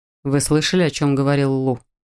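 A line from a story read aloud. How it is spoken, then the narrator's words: Plain. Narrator (Russian): спросил Адам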